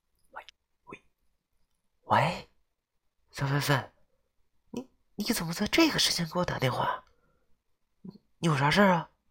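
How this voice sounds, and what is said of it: Very quiet, hushed voice. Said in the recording (Chinese): “小丫头的声音很小，似乎还在上课的样子 ... 小声对我说道”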